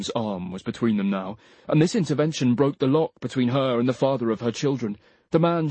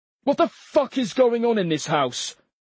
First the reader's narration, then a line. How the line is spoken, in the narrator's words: shouted Charlie